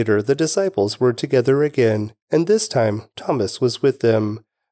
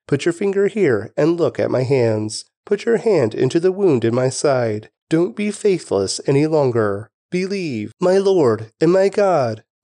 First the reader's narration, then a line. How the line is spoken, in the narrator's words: Thomas exclaimed